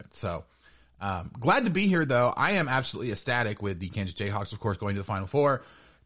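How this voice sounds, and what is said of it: Tired but happy voice. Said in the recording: “I'm sure you can hear it in my voice. I am exhausted, but absolutely over the moon.”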